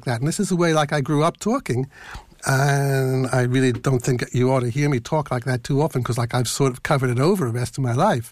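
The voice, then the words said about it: Philadelphia accent. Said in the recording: “if I start talking like a Philadelphian ... that's my Philadelphia accent.”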